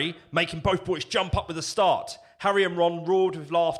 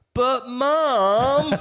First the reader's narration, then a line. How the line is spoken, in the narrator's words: whined Albus and James